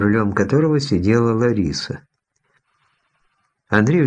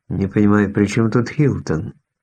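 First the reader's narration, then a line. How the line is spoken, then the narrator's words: Plain question. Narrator (Russian): спросил Андрей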